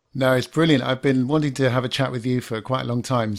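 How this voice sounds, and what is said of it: Smooth, laid-back British accent. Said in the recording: “your voice is like smooth as butter. You got that nice British accent and it's like all laid back ... You got like this smooth radio voice”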